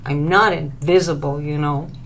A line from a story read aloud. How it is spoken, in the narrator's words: Lily grumbled, still out of sorts